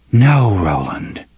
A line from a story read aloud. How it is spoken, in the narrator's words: the voice whispered